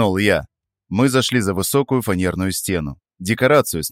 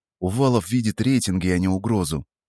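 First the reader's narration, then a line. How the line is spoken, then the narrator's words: Calm, suppressed anger. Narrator (Russian): Ответил я спокойно, хотя внутри у самого все кипело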